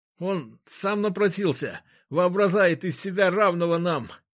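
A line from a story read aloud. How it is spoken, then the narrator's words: Lisped. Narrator (Russian): прошепелявил Горин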